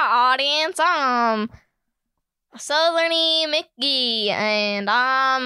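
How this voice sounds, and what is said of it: Usual voice. Nothing is said of it.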